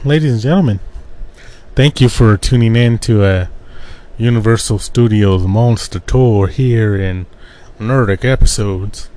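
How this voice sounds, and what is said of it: Put-on accent. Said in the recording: “I don't know why I did that accent.”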